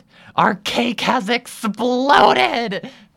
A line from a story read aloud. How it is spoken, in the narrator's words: Pearl wails